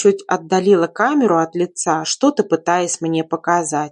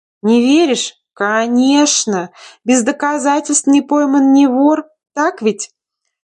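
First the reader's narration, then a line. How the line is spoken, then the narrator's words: Nasty giggling question. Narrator (Russian): Противно хихикая, спросила она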